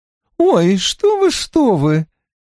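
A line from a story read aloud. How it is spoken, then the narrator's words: Laughing. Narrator (Russian): Синтия вновь хохотнула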